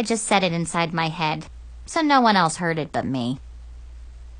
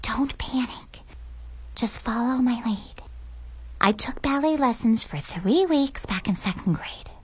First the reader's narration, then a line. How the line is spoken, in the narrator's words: Chloe whispered